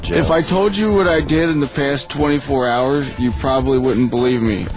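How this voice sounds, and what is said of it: Flat monotone drugged-sounding voice. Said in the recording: “I'm talking in a monotone voice because... hopped up on loads of morphine.”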